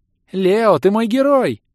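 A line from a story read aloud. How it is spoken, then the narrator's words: Shouted. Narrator (Russian): крикнула она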